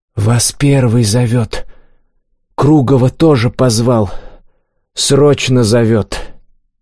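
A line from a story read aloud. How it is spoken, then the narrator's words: Sleepy boy's loud whisper. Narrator (Russian): Заспанный парнишка громко прошептал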